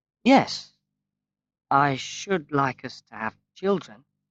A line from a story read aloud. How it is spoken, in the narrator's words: he answered slowly